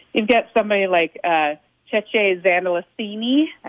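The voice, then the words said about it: Italian-accented pronunciation of a name. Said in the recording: “I've got my Italian accent in there.”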